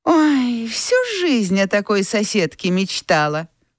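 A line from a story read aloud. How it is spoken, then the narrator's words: Mocking tone. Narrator (Russian): насмешливо сказала Анфиса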